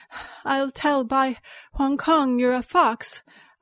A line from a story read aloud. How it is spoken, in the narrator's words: I panted